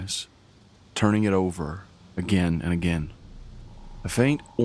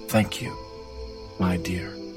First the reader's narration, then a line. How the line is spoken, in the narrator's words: she says quietly